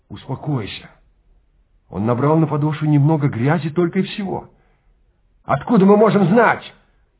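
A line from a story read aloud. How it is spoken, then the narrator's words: Shouted. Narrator (Russian): крикнул Трэвис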